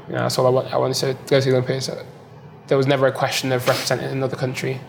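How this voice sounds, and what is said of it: British accent. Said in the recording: “British accent. ... I have a British accent.”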